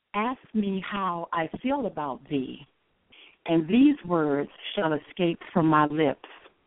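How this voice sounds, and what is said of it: Sultry, seductive poetry-reading voice. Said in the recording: “put on my sexy poetry voice.”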